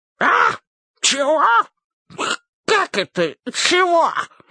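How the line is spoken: Hoarse king. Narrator (Russian): хрипит король

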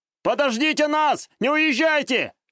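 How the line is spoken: Shouting while running. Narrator (Russian): кричал лощеный очкарик, бегущий в сторону автобуса

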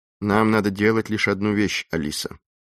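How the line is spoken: Calm, relaxed homely tone. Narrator (Russian): заговорил так же спокойно, как если бы они сидели в своей уютной гостиной дома

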